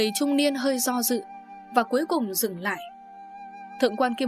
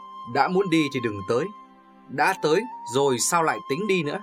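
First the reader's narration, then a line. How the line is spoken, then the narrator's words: Pensive, smiling. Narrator (Vietnamese): Người trung niên trầm ngâm và mỉm cười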